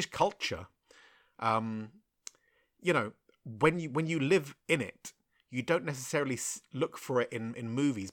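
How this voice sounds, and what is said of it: Well-spoken, upper-class-sounding accent. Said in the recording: “judging by my accent and the way I talk, you're probably thinking, all right, so you come from a good home”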